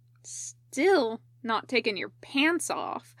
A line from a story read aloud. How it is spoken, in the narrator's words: Katsuko was grumbling